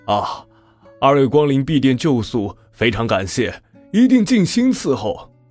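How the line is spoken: Beaming, welcoming. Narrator (Chinese): 老板满脸堆笑的

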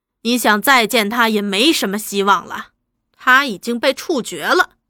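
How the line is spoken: Cold. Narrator (Chinese): 接着又冷冷的道

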